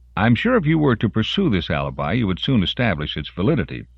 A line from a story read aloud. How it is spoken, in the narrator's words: Brelo said smoothly